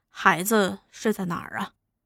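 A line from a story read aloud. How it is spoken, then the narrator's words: Low-voiced question. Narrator (Chinese): 老六便低声问于算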